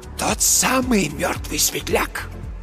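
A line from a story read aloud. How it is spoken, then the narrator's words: Very quiet hoarse wheeze. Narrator (Russian): просипел Марк Йоган совсем тихо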